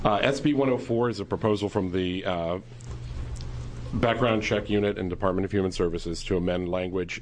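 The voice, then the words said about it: Sick voice, occasionally cracking. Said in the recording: “I'm a little flu-y, so my voice may be cracking here and there”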